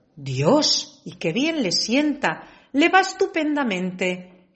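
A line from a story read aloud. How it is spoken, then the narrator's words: Crowd exclaiming. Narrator (Spanish): exclamaban todos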